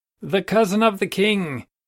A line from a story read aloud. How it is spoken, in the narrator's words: he cried